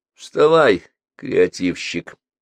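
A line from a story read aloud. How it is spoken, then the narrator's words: Mocking. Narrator (Russian): насмешливо произнес Петр Алексеевич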